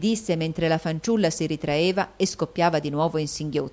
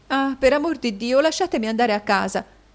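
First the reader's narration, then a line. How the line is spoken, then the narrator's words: Exclamation. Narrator (Italian): esclamò Caterina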